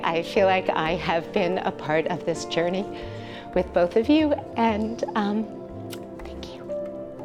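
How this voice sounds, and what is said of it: Slightly teary, emotional voice. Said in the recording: “I'm getting a little teary.”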